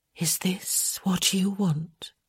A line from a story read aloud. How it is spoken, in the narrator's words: she whispered